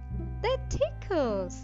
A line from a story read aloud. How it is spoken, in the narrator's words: he cried